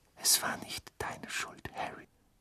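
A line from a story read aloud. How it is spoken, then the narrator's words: Whispered. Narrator (German): flüsterte Mrs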